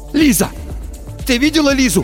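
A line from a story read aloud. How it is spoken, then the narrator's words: Shouting. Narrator (Russian): закричал Тихон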